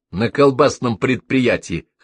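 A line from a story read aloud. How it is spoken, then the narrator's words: Snorting remark. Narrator (Russian): хмыкнул Перельман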